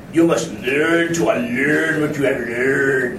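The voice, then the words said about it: Imitates a movie character's voice. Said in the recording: “That's my best imitation.”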